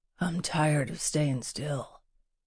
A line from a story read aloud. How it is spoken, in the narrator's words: rasped